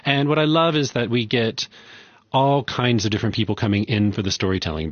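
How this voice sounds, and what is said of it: South African Zulu-influenced English accent. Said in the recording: “I can tell from your accent that you're from KwaZulu.”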